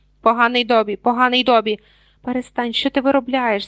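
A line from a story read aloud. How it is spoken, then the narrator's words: Hissing. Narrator (Ukrainian): зашипів Гаррі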